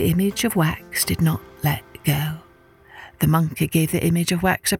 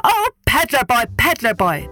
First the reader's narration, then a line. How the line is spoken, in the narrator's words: the monkey shouted